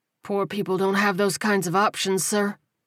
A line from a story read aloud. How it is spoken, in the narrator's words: Walter said hoarsely